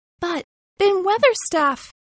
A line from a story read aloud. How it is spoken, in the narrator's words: cried Mary